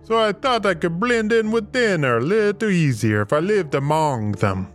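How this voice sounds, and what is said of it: Character speaking with an accent. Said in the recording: “Please forgive my accent.”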